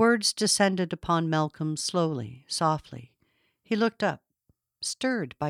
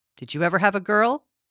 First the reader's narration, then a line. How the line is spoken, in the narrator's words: He paused, then asked sharply